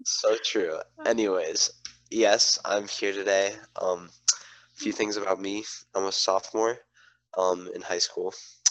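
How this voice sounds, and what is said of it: Nasal, congested voice. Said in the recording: “I have COVID right now, which is why my voice sounds a little like nasally.”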